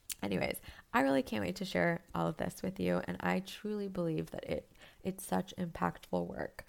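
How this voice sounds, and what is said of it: Strained, failing sick voice. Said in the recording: “I've been kind of sick the last couple days ... my voice is kind of crapping out. ... I don't always sound like this.”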